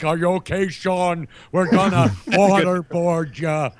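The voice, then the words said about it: Imitates another person's voice. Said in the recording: “That's not a bad impression... That's exactly what Ventura sounds like now”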